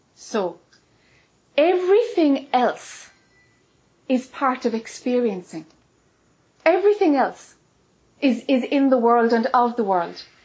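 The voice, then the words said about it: Irish accent. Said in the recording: “as we say in Ireland, I know the pronunciation is different... I know the accent can be a problem”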